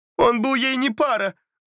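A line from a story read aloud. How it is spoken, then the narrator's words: Tearful declaration. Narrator (Russian): заявила ее мать сквозь слезы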